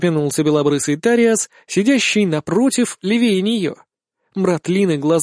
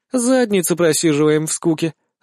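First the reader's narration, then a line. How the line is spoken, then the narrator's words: Succubus, snide sarcastic. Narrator (Russian): заговорила суккубка ехидно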